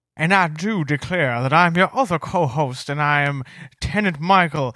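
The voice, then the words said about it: Put-on Southern gentleman accent. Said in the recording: “that's not my regular voice. It's not my regular accent. I was just sort of, being silly ... I was pretending I was like a character in a Tennessee Williams play ... a southern gentleman fanning himself”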